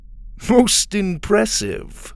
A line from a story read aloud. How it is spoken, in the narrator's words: Grebe chuckled